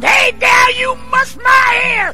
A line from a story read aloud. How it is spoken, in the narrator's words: he screamed